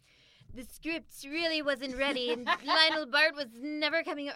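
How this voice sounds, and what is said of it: Imitates another person's voice. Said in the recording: “Wait, let me try to do it. ... I'm really terrible. ... I thought that was a good impression.”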